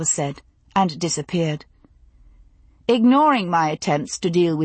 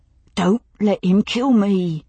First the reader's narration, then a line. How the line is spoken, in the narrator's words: he said hoarsely